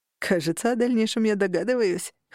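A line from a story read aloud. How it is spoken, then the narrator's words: Smirking. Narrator (Russian): хмыкнул Рыжик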